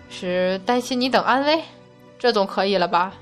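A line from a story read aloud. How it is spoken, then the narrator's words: Wry, sighing. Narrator (Chinese): 太白金星苦笑着，只得长叹道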